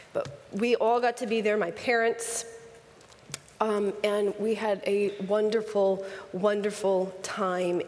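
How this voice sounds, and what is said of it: Raspy voice from a cold. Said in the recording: “I'm fighting this cold thing that everybody has, so try to ignore my raspy voice”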